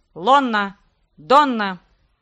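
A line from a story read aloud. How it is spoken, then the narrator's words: Sudden bark. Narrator (Russian): внезапно рявкнул Китар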